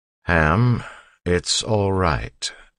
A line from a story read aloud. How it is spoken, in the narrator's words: Ellen said slowly